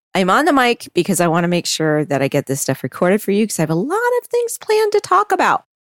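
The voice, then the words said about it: Nasal, congested voice. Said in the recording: “I'm a little nasally because of it. So my voice might sound a little different.”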